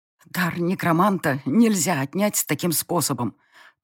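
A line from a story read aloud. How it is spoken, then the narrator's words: Hoarse pained wheeze. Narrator (Russian): Просипела я, пытаясь унять горящее в груди пламя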